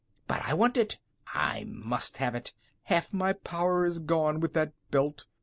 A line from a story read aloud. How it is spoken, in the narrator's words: roared the king